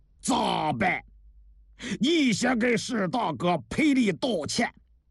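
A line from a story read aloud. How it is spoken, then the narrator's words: Stern, harsh. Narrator (Chinese): 王向清厉声地说道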